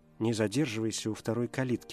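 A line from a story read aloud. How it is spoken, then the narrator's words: Whisper. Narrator (Russian): шепнула жена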